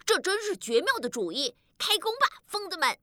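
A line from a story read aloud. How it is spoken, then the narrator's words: Shouting. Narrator (Chinese): 鲁多喊道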